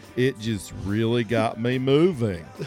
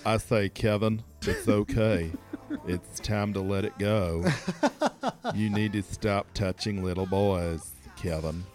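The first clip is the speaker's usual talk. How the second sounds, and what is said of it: Imitates another person's voice. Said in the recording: “That was the voice of Al Gore from the movie Recount... Doing Al Gore on our podcast... I do the voice of Al Gore”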